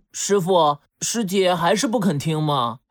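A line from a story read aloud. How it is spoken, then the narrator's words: Resigned sigh. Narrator (Chinese): 豪猪无奈地叹了一口气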